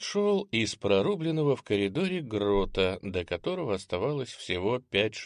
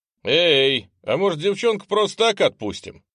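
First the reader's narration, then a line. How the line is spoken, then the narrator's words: Loud question. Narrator (Russian): спросил громко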